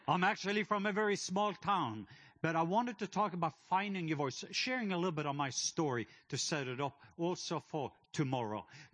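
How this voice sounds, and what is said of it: Norwegian accent. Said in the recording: “I am from the country of Norway. So my accent, I'm not from Atlanta.”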